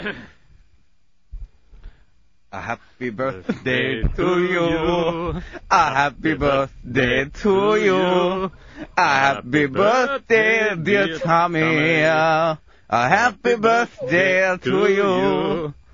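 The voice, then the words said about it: Sings in a put-on Chinese accent. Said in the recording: “I don't even know what accent that was. ... That was Chinese, wasn't it? ... But it was brilliant.”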